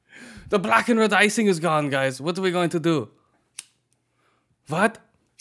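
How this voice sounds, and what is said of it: Imitated neo-Nazi character voice. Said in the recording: “my imitation of neo-Nazis”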